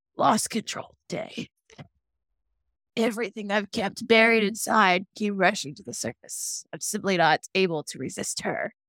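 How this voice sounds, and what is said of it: Imitates a TV character's voice. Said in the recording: “do my Stefan voice.”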